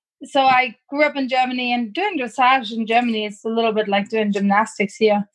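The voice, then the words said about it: German accent. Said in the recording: “I grew up in Germany, as you can tell by my accent.”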